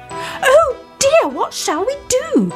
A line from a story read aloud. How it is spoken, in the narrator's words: they all cried